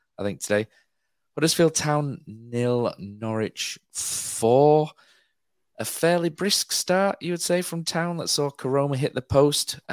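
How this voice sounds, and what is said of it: Rough, strained voice from illness. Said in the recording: “I've still got a chest infection. My voice is really, really sketchy.”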